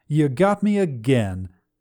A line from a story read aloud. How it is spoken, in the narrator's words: Cookie called out to the guard captain